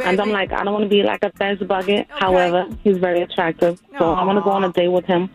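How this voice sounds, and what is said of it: Strong New York-style accent. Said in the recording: “you got a real Rosie Perez accent already”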